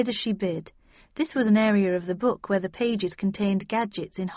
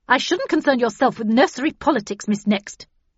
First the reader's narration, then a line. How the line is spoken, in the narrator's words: said Havisham so sharply